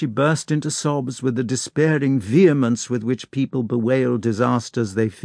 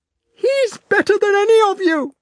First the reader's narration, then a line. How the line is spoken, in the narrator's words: exclaimed Natasha